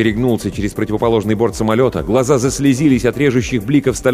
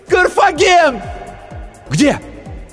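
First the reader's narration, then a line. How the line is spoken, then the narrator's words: Desperate heartrending cry. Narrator (Russian): крикнула отчаянно, душераздирающе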